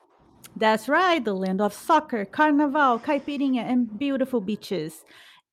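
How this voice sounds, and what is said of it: Brazilian accent. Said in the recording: “By now, I believe your ears have been catching up to our accent, and maybe it doesn't know where to place it. Well, it is because we are both from Brazil.”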